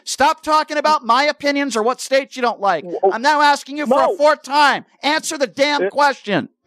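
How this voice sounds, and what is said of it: Yelling angrily. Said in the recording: “Why are you yelling?”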